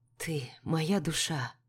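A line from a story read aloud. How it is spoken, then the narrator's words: Very soft whisper. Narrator (Russian): прошептал он, и его голос был слышен только мне, хотя в зале церемонии стояла абсолютная тишина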